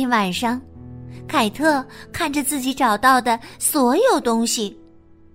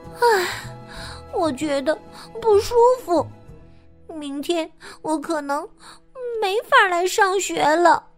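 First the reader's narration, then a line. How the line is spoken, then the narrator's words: Sighing. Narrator (Chinese): 他叹息说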